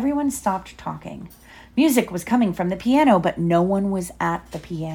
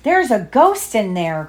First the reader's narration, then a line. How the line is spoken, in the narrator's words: cried Mr